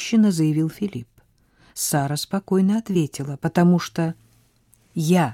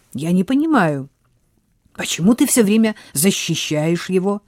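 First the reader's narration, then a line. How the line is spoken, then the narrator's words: Irritated remark. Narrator (Russian): раздраженно заметил Филипп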